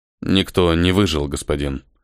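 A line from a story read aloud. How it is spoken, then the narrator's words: Grim report. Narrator (Russian): мрачно отчитался первый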